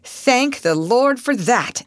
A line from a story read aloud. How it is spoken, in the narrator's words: exclaimed Mr